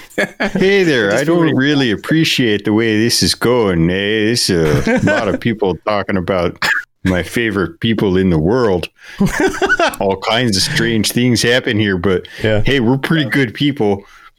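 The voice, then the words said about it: Put-on Minnesotan Midwestern accent. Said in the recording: “like a Minnesotan ... The Midwestern, the real clean okay, Midwestern then. Accent.”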